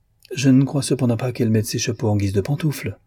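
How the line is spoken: Acerbic tone. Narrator (French): fit-il d'un ton acerbe

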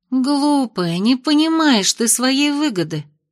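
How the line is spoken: Sighing. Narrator (Russian): вздохнула Майя

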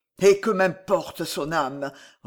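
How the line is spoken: Inward roar. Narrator (French): rugit-il en lui-même

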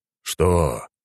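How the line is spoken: Weary exhaled words. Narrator (Russian): устало выдохнул мужчина

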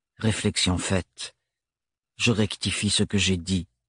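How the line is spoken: Monotone voice. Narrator (French): reprit Thorn d'une voix monocorde

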